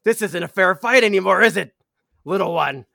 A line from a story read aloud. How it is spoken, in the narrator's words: she's yelling at you, Dim